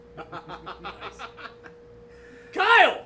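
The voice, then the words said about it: Shouting. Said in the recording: “Why are you shouting? ... We always shout at the end of this.”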